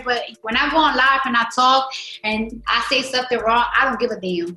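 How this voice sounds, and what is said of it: Accented, broken English speech. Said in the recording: “I just sometimes don't be liking my voice and my accent. My English is very broken.”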